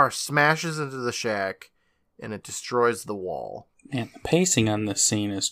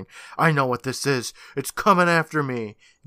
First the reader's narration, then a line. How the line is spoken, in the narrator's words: yelling